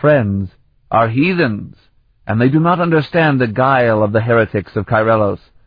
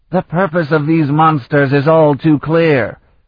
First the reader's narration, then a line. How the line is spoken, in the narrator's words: Ribal shouted over the tumult